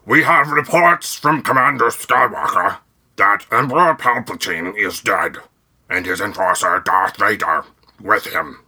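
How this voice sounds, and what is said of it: Admiral Ackbar character voice. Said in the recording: “I can't keep it up... I'll finish it in my regular voice... Was that a pretty good Akbar?”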